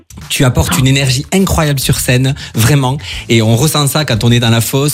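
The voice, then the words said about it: Melodic, sing-song French regional accent. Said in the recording (French): “c'est pas du tout un accent de Strasbourg que tu as là ... c'est beau, ça chante ... Ça chante”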